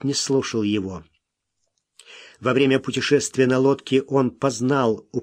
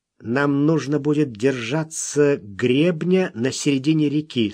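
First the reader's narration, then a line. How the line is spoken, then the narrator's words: Plain. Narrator (Russian): сказал он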